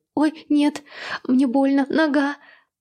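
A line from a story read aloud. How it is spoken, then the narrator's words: Moaning in pain. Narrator (Russian): простонала Люба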